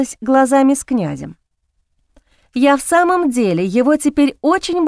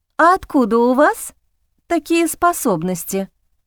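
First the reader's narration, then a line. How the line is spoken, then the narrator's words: Plain. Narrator (Russian): спросила я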